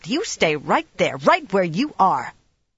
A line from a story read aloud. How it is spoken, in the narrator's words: Egwene snapped